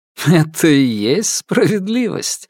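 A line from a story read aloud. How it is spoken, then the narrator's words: Laughing. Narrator (Russian): рассмеялся Дзянья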